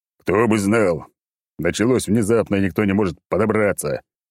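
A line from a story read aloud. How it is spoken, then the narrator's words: Growling. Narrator (Russian): прорычал он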